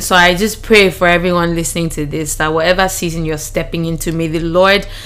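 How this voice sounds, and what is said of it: Raspy, hoarse voice. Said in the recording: “my throat is raspy.”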